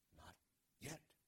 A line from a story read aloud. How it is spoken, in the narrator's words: whispered